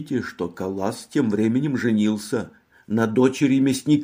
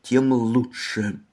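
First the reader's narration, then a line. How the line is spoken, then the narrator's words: Grim, through clenched teeth. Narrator (Russian): пристально и мрачно произнесла сквозь зубы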